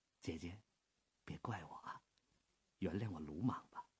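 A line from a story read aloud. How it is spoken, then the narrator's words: Low and tender. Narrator (Chinese): 卢秋影说话的声音很低很柔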